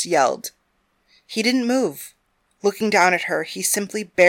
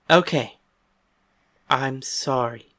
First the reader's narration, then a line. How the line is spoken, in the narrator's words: said, keeping her voice low